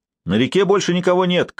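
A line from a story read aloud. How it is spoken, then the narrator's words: Shouting. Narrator (Russian): крикнул какой-то воин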